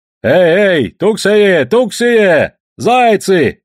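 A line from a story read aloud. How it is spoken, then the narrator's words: Yelling. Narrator (Russian): орал Савоська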